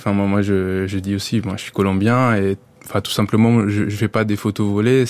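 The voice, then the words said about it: Colombian accent speaking French. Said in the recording (French): “je suis connu au début comme le photographe colombien ... il découvre bien avec mon accent”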